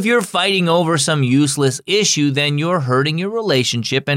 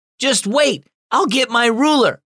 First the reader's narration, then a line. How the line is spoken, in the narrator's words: Becca shouted at her sister Annie